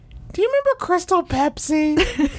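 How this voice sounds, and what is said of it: Imitates another person's voice. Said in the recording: “That's exactly what I sound like, ... That's a pretty good impression.”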